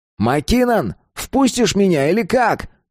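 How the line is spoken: Barking shout. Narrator (Russian): гаркнул он

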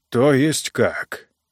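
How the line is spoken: Hoarse question. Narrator (Russian): хрипло спросил Титу Апостас

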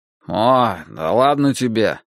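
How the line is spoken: Sleepy father. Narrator (Russian): сонно сказал отец

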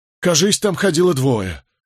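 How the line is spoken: Breathless exhale. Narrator (Russian): выдохнул пастух

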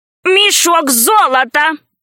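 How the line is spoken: Shouting. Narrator (Russian): кричал он

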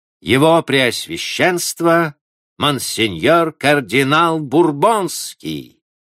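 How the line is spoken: Loud proclamation. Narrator (Russian): привратник громко провозгласил

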